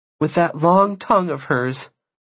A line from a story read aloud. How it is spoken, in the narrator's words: she laughed